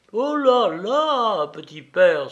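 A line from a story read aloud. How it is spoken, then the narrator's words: Exclaiming. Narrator (French): s'écria-t-il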